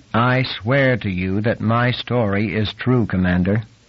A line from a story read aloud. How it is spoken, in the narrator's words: Nick said calmly